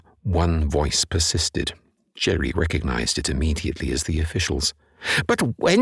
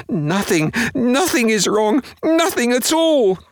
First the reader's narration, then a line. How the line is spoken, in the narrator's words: cried her husband